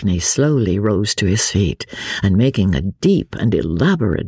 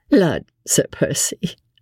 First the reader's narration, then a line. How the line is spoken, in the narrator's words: laughed Lady Blakeney